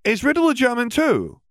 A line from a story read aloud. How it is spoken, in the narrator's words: Hermione asked, speaking more loudly this time